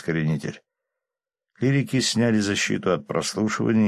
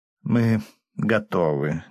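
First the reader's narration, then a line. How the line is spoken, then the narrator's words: Slightly displeased. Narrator (Russian): немного недовольным тоном оповестил он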